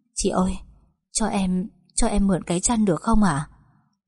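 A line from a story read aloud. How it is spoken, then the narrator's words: Trembling plea. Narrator (Vietnamese): run rẩy nói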